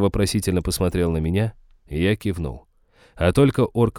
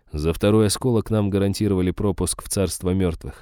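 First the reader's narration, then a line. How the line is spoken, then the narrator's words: Plain. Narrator (Russian): ответил я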